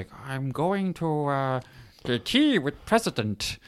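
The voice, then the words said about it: Yoda-like character voice. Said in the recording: “you're doing a Yoda voice though. That's amazing.”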